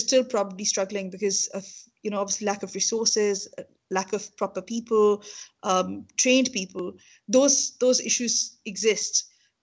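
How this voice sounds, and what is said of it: Strong Pakistani English accent. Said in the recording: “I have a very, very strong Pakistani accent.”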